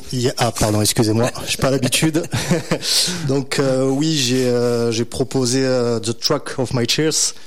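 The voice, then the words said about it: French-accented English pronunciation. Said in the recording (French): “Désolé pour l'accent anglais, hein, j'essaie de faire un petit effort.”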